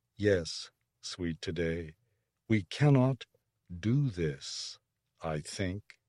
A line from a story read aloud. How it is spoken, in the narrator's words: Orith said slowly